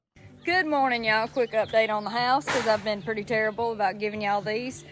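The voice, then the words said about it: Woman speaking with a noticeable accent. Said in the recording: “you can actually hear her accent, hear her speak”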